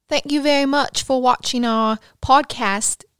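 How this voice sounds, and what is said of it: Put-on English accent. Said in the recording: “That was actually not bad. ... I feel like that was so bad. ... how was my accent?”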